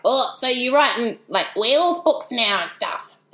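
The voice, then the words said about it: Imitates another person's voice. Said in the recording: “doing a terrible impression, but that is genuinely how Pat spoke”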